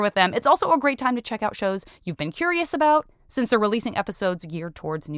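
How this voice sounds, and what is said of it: Usual voice. Nothing is said of it.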